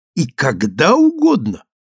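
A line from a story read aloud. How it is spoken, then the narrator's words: Exclamation with genuine horror. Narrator (Russian): воскликнул мой проводник, и в голосе его прозвучала нотка неподдельного ужаса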